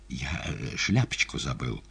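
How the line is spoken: Whisper. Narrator (Russian): шепнул буфетчик

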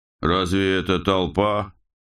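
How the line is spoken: Mocking. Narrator (Russian): насмешливо ответил Дирпс

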